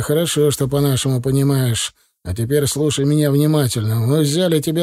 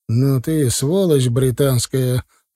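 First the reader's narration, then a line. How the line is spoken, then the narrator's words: Through gritted teeth. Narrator (Russian): процедил сквозь зубы капитан-поручик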